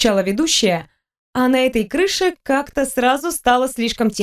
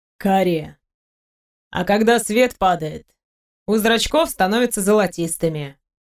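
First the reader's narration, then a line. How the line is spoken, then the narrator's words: Calm answer. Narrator (Russian): спокойно ответил Сергей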